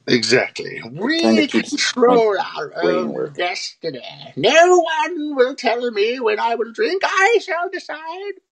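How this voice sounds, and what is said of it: Witch-like character voice. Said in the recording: “doing that voice. Kind of like a Dark Crystal witch or something.”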